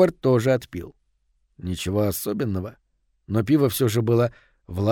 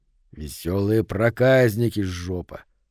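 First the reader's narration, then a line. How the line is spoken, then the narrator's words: Grumbled. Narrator (Russian): буркнул Говард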